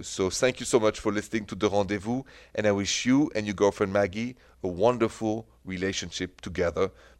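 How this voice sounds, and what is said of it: French-accented English. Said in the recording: “can you throw something in French? Because she loves your accent.”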